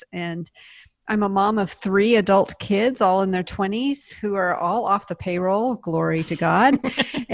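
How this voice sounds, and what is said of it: Non-Southern Pacific Northwest American accent. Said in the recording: “You might hear in my voice, I don't sound very Southern. I'm from the Pacific Northwest, Seattle.”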